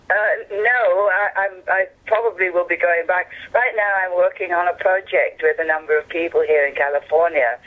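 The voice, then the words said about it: English accent. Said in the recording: “you have this beautiful English accent... How do you still have that accent?”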